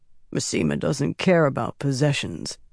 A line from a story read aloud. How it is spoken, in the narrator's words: mumbled quietly, eyes still closed